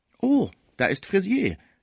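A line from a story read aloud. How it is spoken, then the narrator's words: Unwise call. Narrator (German): rief sehr unklug Villemot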